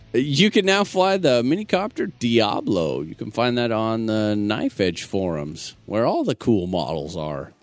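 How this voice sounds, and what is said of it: FM radio announcer voice. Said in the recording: “really good FM radio announcer voice”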